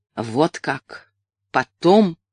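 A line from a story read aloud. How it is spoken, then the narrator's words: Even, cold tone. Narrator (Russian): проговорил ровным, холодным тоном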